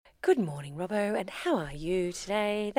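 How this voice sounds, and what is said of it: Put-on radio presenter voice. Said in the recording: “That's my special radio voice I only use for you.”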